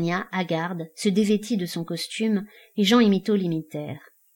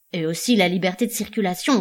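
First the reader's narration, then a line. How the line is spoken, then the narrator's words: Soldier, grumbling. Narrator (French): grogna un homme d'armes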